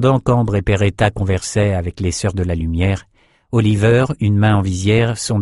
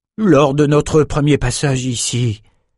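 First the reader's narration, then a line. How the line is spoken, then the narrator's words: Said sadly. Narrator (French): dit tristement Trevor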